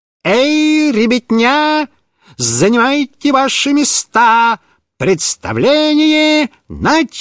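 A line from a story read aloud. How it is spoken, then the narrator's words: Exaggerated circus showman voice. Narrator (Russian): сказал нарочным цирковым голосом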